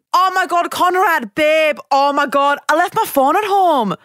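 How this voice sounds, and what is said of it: Imitates another person's accent. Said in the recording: “You do such like, a good accent.”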